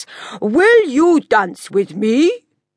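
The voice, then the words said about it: Exaggeratedly polite character voice. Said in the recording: “asked in his politest voice”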